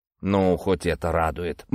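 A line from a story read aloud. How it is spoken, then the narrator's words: Grumbled. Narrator (Russian): буркнул Покровский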